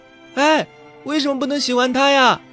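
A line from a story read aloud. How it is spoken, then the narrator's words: Calling after someone. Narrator (Chinese): 宋小茹追着赵之安的背影喊道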